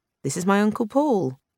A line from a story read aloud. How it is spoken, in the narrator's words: Jane said stiffly, evidently uneasy herself